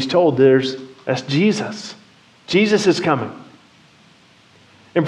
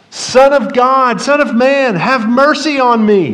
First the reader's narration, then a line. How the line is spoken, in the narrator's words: he yells out